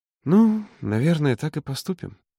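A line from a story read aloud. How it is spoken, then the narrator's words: Uncertain drawl. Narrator (Russian): неуверенно протянула она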